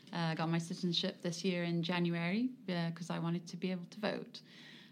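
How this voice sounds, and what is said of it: English accent. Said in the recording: “I was obviously born in England. You probably tell by the accent”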